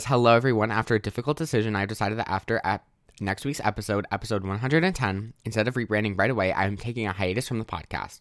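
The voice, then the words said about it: Voice sounds sick, congested. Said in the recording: “my voice sounds so, like, I'm so sick”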